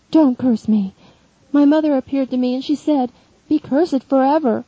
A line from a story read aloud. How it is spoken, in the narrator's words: moaning